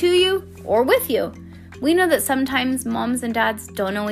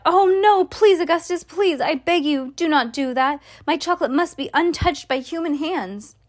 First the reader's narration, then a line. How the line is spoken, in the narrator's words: he cried out